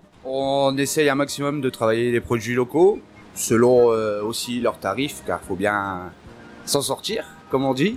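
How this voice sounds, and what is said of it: Slight northern French accent. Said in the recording (French): “il y a un petit accent ... je viens du Nord-Pas-de-Calais, plus précisément Gravelines”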